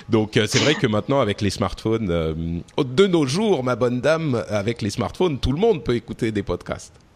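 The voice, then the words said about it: Odd put-on accent. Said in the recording (French): “Je sais pas ce que c'est cet accent, c'est un peu bizarre.”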